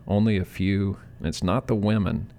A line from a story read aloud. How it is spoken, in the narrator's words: She sighed